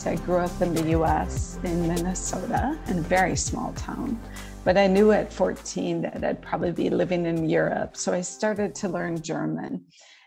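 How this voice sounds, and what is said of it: American accent. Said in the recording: “As you can hear, I have an American accent.”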